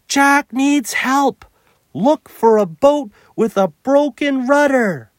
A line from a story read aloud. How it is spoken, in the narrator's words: Nim shout